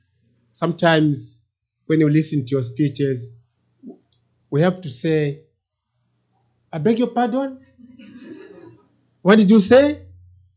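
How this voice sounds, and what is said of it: Zambian English accent. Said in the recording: “from Zambia in Africa ... my accent may not be the same as yours”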